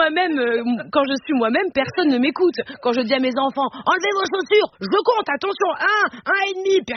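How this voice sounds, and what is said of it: Usual voice. Nothing is said of it.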